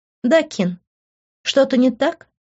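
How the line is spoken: Cold, smiling tone. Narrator (Russian): Холодно улыбнулась я

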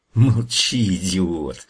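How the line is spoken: Witch hissing. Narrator (Russian): прошипела ведьма

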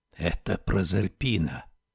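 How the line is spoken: Whisper. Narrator (Russian): шепотом сообщил Жан Мерсье

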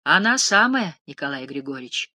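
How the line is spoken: Calm, smiling. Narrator (Russian): сказала Лебедуха, улыбаясь спокойно

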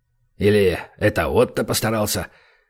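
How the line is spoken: Annoyed grumble. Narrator (Russian): досадливо пробурчал бывший сержант

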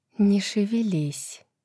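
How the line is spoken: Breathless whisper. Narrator (Russian): прошептала Неста, тяжело дыша

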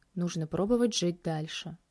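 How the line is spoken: Quiet. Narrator (Russian): негромко произнес

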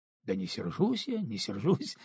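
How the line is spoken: Bursting out laughing. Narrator (Russian): расхохотался Алексей

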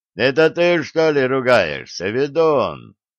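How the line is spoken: Cheerful question from behind. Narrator (Russian): весело спросили его сзади

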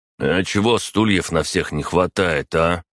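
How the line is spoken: Displeased grumble. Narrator (Russian): недовольно проворчал Арсений

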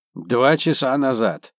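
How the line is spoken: Gloomy. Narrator (Russian): мрачно сказал он

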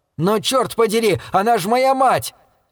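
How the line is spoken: Loud shrill trilling. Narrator (Russian): Его трели стали громче и резче, из чего я заключил, что он чуть ли не вопит

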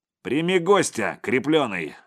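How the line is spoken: Loud barking shout. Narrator (Russian): гаркнул жилвак

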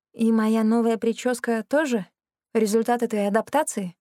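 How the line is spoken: Forced calm question. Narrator (Russian): спросила я, изо всех сил стараясь, чтобы голос звучал спокойно

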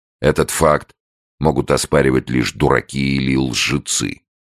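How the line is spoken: Stern voice. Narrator (Russian): строгим голосом добавил

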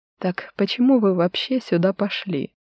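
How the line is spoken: Sudden soft voice. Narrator (Russian): Вдруг мягко нарушил он тишину

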